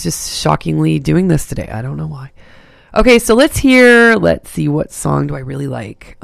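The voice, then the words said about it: Rough, raspy smoker-like voice. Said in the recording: “Excuse my voice here. I sound like a old smoker man, but I'm not.”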